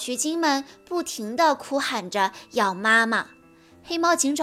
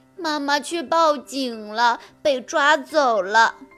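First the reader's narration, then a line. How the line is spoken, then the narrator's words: Crying while speaking. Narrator (Chinese): 取经妹妹边哭边说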